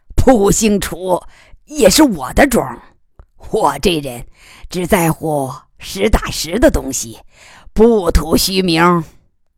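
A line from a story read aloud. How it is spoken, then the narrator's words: Grinning laugh. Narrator (Chinese): 楚贵妇咧嘴笑道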